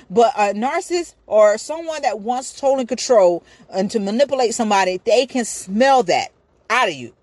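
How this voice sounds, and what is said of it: Yelling, loud emphatic speech. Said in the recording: “I'm yelling, y'all. I'm sorry.”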